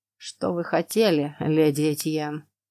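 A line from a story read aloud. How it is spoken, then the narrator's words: Dry question. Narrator (Russian): сухо спросил он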